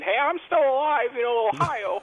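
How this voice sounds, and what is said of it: Imitates another person's voice. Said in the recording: “good Kasich impersonation”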